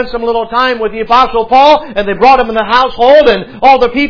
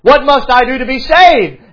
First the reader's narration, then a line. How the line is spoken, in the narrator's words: cried out